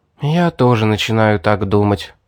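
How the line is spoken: Sighing. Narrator (Russian): вздохнула Эстер

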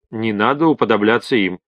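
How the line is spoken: Calm. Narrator (Russian): спокойно ответил Майк

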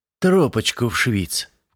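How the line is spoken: Ingratiating tone. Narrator (Russian): вкрадчивым тоном подал свой голос Крон

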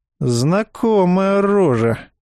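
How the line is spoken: Doubtful drawl. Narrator (Russian): с сомнением протянул он

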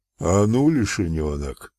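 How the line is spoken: Hoarse. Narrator (Russian): прохрипел огнедув

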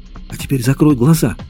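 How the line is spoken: Whisper. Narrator (Russian): шепнула она

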